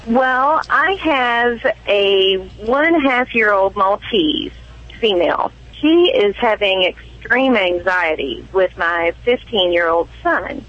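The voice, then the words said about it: Light Kentucky accent. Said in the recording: “why don't you have a Kentucky accent? ... Central Kentucky is not as heavy in that Kentucky accent. I'm sure you'll hear bits and pieces of it, though. ... I'm hearing it now.”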